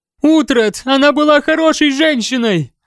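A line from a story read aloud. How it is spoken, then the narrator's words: Shouting. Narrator (Russian): прокричала она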